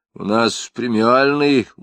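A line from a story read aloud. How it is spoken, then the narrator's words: Glum lie. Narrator (Russian): уныло солгал Кошкин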